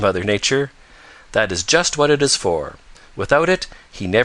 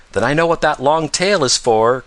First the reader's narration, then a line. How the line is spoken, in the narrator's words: cried Peter